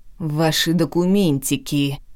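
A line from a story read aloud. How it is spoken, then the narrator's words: Through gritted teeth. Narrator (Russian): процедил сквозь зубы мужчина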